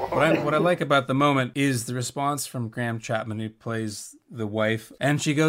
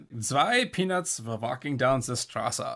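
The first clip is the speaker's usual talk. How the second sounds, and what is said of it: Funny exaggerated German accent. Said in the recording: “the way it's said is in this funny German accent”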